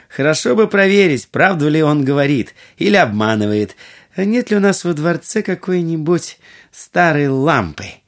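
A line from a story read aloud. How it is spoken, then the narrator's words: Laughing. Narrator (Russian): Будур рассмеялась и сказала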